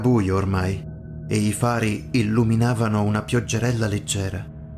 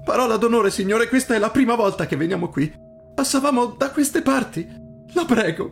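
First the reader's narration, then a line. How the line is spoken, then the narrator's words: Boy sobbing. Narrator (Italian): singhiozzò il ragazzo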